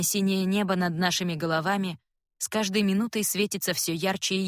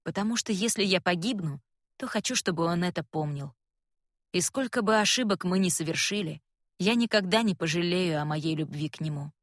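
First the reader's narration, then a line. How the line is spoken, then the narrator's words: Quiet. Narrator (Russian): тихо говорю ему я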